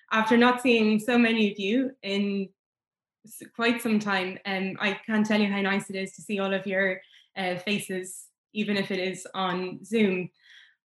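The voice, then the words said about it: Emotional, voice starting to waver. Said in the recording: “As you can hear, I'm already starting to get emotional”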